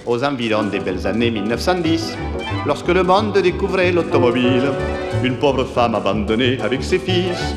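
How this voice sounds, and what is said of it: Southwestern French accent. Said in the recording (French): “l'accent du sud-ouest ... je reprends pour cette chanson mon accent natal, natif, que je n'ai pas complètement perdu”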